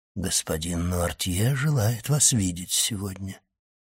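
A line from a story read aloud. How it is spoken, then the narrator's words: Quiet. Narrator (Russian): тихо сказал он ей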